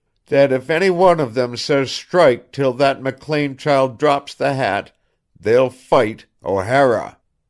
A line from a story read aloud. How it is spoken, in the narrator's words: growled in weak jerks